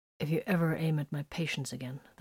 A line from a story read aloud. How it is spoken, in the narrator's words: the blood drinker threatened in a low voice